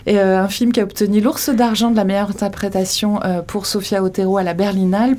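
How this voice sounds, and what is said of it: Basque-accented French. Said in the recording (French): “Donc basque, réalisatrice basque. Euh, ah, on l'a deviné à mon accent”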